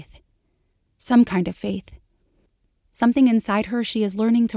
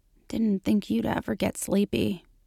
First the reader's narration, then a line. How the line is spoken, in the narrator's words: she mumbles